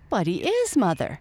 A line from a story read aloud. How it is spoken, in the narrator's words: cried Mike